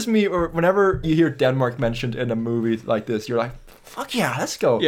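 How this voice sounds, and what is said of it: Usual voice. Nothing is said of it.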